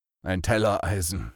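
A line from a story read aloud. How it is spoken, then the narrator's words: Man groaning. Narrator (German): stöhnte er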